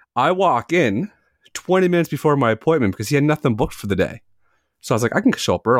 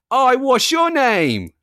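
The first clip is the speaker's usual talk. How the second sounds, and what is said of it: Thick British accent. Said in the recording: “in the thickest British accent”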